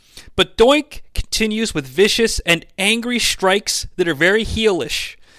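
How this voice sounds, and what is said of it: Usual voice. Nothing is said of it.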